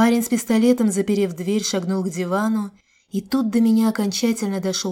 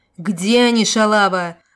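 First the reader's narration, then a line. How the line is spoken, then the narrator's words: Bandit yelling. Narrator (Russian): заорал бандит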